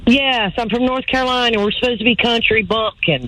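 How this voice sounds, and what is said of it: North Carolina accent. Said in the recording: “this is a North Carolina accent”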